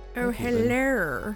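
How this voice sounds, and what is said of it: Put-on Frankenstein-like character voice. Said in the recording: “a new accent, a new character... That was a little bit like Frankenstein... a little Alan Rickman... real Lorne Michaels vibes”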